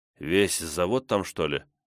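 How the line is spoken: Quiet question. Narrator (Russian): тихо спросил я

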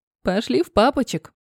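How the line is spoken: Laughing. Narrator (Russian): рассмеялась Альбина

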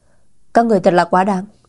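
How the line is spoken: Furious loud shout. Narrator (Vietnamese): tức giận đùng đùng, lớn tiếng quát

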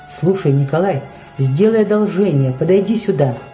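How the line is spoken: Plain. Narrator (Russian): сказал он

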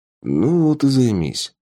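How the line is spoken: Grumbled mutter. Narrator (Russian): буркнул Тапок

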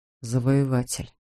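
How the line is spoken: Quiet. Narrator (Russian): тихо произнес

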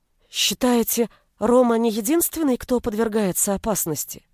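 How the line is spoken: Frightened question. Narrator (Russian): спросила я испуганно

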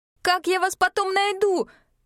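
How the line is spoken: Shouted reply. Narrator (Russian): крикнула я в ответ

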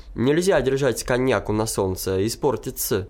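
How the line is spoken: Plain. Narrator (Russian): сказал я

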